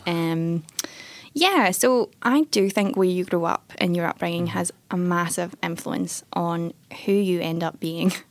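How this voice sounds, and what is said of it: Scottish accent. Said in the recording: “if you can't tell from my accent, um, Scotland.”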